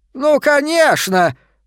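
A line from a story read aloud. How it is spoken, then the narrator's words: Shouted. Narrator (Russian): закричал Бернардис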